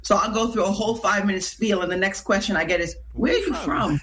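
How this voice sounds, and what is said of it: St. Lucian accent. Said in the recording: “my accent follows me everywhere I go... they're more so listening to my accent... born in St. Lucia”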